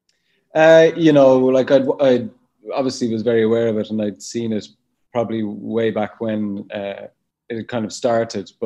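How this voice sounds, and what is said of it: Noticeable accent. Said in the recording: “I love your accent. ... It's lovely.”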